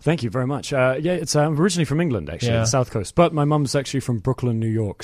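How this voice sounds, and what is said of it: English accent. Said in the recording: “That's an incredible, not just a great name, but a great accent as well.”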